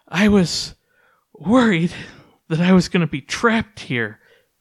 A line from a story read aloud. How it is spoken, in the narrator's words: she said, her voice out of breath and panting